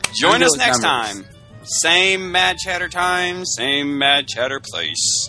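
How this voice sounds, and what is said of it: Announcer voice. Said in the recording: “You like my announcer voice? ... I do. It's very good.”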